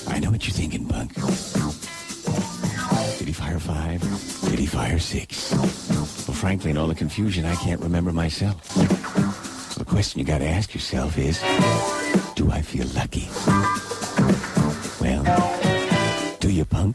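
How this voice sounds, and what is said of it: Clint Eastwood impression. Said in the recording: “My best Clint Eastwood imitation.”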